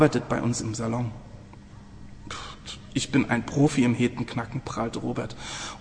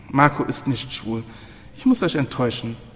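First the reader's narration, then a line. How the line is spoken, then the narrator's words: Sighing. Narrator (German): seufzte Sarah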